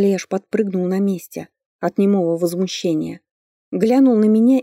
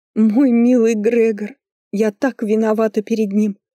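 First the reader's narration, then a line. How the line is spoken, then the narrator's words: Sobbing. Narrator (Russian): залилась в рыданиях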